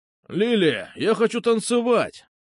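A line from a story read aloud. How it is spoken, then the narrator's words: Shouting. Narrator (Russian): кричал он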